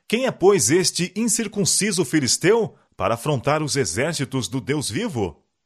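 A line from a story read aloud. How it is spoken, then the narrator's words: Ashamed, indignant exclamation. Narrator (Portuguese): Com vergonha e indignação exclamou Davi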